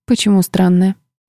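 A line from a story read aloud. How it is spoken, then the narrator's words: Dry halting whisper. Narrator (Russian): прошептала я, чувствуя, как в горле пересохло, а слова подбираются с трудом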